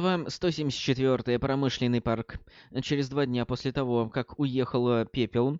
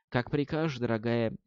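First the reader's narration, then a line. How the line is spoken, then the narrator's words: Soft whisper in ear. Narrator (Russian): мягко прошептал Ферлин ей прямо в ухо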